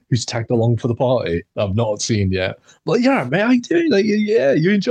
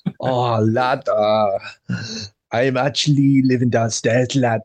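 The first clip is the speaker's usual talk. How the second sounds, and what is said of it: Imitates another person's weird accent. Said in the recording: “he's got a weird accent, bro. He's got a weird accent.”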